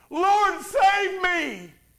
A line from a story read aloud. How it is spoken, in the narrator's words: he was afraid, and beginning to sink, he cried out, saying